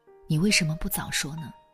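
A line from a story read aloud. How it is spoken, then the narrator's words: Choked with sobs. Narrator (Chinese): 丈夫、儿子几度哽咽，说出了意思同样的一句话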